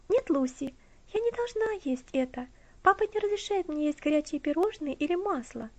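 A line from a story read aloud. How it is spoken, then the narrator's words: Carefree interruption. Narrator (Russian): прервала ее Элси тем же беззаботным тоном, которым говорила до этого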